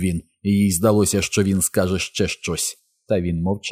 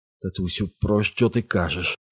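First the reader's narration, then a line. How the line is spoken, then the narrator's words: Quiet trembling question. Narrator (Ukrainian): стиха спитала тремтячим голосом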